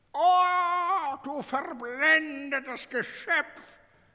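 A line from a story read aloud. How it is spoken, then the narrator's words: Solemn croaking raven. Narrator (German): krächzte der erste Rabe feierlich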